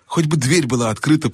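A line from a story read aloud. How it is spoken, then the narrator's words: Whisper. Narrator (Russian): прошептал Юстас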